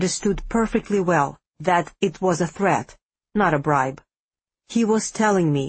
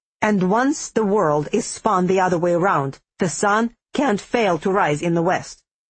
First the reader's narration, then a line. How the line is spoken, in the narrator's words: the dragon snapped